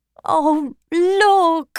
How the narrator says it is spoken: Retzia begged him

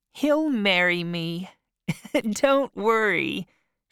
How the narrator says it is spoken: said, laughing

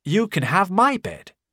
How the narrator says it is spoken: said Kemp

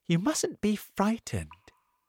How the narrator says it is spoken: the ladybird said kindly

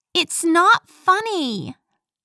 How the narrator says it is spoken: yelled

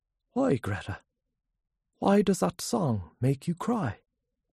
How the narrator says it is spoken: Gabriel said kindly

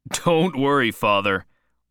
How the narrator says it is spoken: laughed Whedon

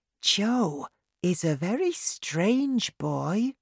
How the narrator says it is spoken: Lou says quietly to Davy

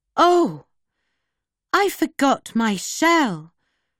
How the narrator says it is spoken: Tamasha cried

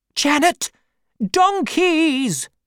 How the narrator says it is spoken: my aunt suddenly cried out

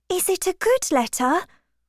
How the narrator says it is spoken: asked Harriet anxiously

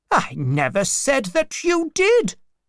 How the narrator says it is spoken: replied crossly

